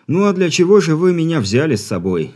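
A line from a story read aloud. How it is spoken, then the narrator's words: Sighing, mock despair. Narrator (Russian): Вздохнув с показным отчаянием, ответил инженер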